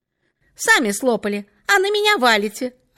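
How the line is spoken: Snapped. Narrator (Russian): огрызнулась Катенька

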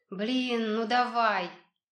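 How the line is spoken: Moan. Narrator (Russian): простонал Леня

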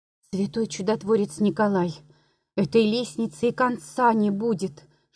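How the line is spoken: Young woman whispering. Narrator (Russian): шептала молодая женщина

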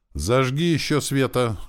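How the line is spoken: Loud. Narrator (Russian): громко сказал он служанке

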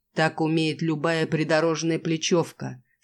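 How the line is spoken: Laughing yet stern. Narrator (Russian): смеясь и довольно строго произносит

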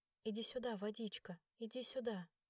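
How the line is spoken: Quiet repetition. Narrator (Russian): тихо повторяла я

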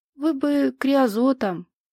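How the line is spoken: Gentle remark. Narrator (Russian): ласково заметил

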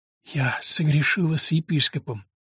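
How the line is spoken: Forced out reluctantly. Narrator (Russian): выдавила из себя Агнес

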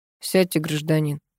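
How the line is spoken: Deliberately official policeman's tone. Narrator (Russian): нарочито официальным голосом велел милиционер

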